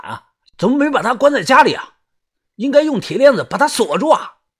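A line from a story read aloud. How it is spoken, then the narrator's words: Shouting. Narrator (Chinese): 喊完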